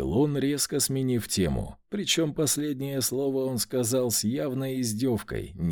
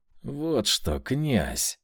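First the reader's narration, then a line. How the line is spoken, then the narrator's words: Hiss. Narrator (Russian): прошипел инквизитор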